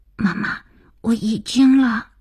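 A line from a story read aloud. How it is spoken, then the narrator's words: Child's hurried frightened whisper. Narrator (Chinese): 儿子急促惶恐的小声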